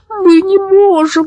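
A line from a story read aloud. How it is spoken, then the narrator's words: Whimpering. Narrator (Russian): захныкал Зэп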